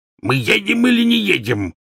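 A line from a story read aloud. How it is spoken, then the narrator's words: Bark. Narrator (Russian): рявкнул дядя Вернон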